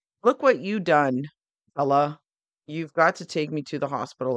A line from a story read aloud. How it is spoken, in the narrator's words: said to Fred